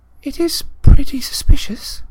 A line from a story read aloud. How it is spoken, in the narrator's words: breathed Hermione